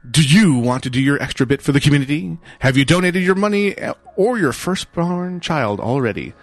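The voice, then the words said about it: Announcer-style radio voice. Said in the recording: “I have to do it in radio voice.”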